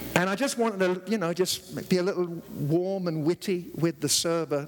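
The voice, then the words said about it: Speaks with a noticeable accent. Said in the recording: “because of my accent, she didn't hear me”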